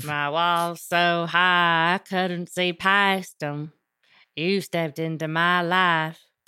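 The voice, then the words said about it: Put-on Southern cowboy accent. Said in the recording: “I'm going to need a little clarification on that accent. ... Was that British? Was that a fucking cowboy? ... Southern. It was a cowboy.”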